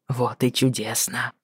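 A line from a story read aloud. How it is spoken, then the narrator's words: Muttered in a strangled voice. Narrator (Russian): сдавленно пробормотал он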